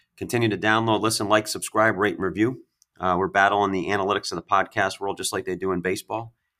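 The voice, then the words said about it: Hoarse, strained, nearly lost voice. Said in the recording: “I apologize for my voice. I had to coach 16 games this weekend ... my voice is gone”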